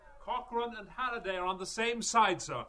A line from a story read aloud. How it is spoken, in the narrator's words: Stephen cried